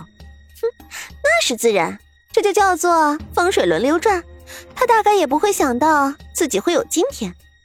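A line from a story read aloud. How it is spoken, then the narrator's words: Smug laughing. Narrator (Chinese): 王莲儿一笑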